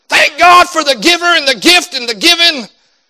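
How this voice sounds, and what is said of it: Preacher voice. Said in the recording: “did my best preacher voice.”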